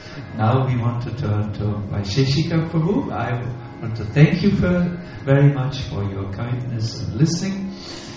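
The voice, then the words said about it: German-accented English. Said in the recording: “It must have been difficult to understand my German language with a little English accent. I cannot speak so good English”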